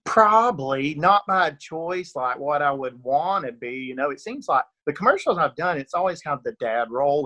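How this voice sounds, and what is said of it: Rural Georgia Southern accent. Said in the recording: “rural Georgia accent. I'm definitely from Northeast Georgia, and it definitely comes through sometimes... I've been accused of being from Texas, Tennessee”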